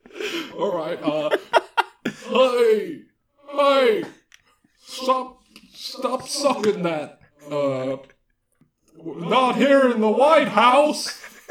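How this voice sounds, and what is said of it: Bill Clinton impression. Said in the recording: “you're a good impressionist ... can you do an impression of Bill Clinton for us?”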